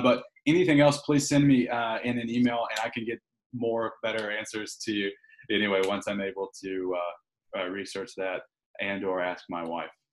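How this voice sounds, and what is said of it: Southern country accent. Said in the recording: “that sounded so country. I didn't know that I had a Southern accent”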